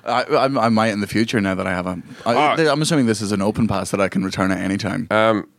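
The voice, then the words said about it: Softened, posh Scottish accent. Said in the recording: “In case you don't recognize his accent,... Scottish... it's not like a real Scottish. It's like a posher Scottish. The Americans can understand it... you've softened it a bit. You used to be a lot thicker.”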